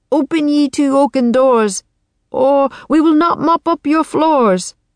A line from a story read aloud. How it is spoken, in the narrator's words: yelled